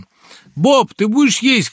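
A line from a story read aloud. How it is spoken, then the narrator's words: Shout. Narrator (Russian): крикнула она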